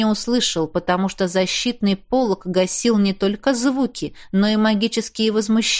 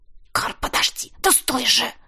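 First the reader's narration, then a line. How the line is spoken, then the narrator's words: Hissed. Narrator (Russian): Прошипел я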